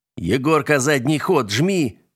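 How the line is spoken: Roaring. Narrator (Russian): взревел Влад

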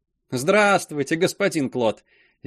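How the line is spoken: Cheerful woman's reply. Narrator (Russian): весело ответила огородница

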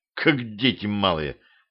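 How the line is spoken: Grumbling. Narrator (Russian): проворчал я

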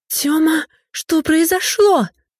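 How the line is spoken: Shouted. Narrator (Russian): закричала Юля

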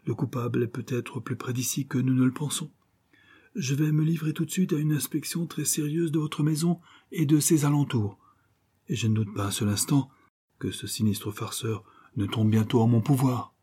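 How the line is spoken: Pleading. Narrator (French): suppliait Coquentin

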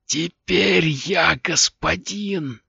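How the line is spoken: Small head wheezing. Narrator (Russian): прохрипела маленькая головка

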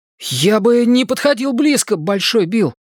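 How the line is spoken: Alarmed exclamation. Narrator (Russian): с тревогой воскликнул Ричи

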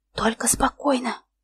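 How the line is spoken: Whispered. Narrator (Russian): шепотом сказала

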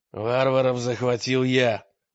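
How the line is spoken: Irritated declaration. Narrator (Russian): раздраженно заявил изуродованный царевич

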